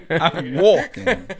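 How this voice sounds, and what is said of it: Weak attempt at New York accent. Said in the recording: “Can't even do a proper New York accent.”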